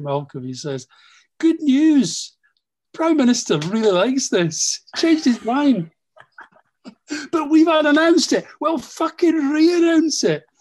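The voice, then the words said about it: Impression of Malcolm. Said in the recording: “That's a great impression.”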